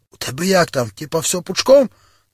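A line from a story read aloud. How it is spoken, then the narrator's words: Quiet. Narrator (Ukrainian): тихо так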